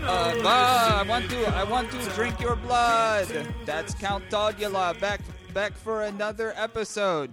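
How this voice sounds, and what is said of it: Put-on vampire character voice. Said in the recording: “I don't know if it's a regional accent you're doing or a vampire one.”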